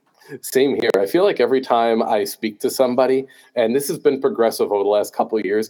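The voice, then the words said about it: Thick New Jersey accent. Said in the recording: “my thick New Jersey accent just gets worse and worse ... The more coffee, the deeper it is”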